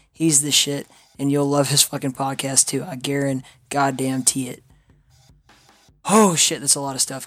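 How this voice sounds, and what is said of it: Hoarse, strained voice. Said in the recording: “my voice is shot? Man, my voice is fucked up from QuakeCon, dude. I can barely speak.”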